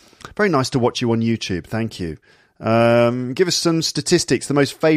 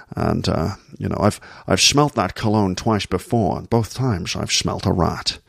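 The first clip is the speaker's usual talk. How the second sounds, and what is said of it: Very low Sean Connery impression. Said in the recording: “a Sean Connery impression... You just lower your voice down here like this. Make your voice as low as possible. And then all of the S sounds become sh.”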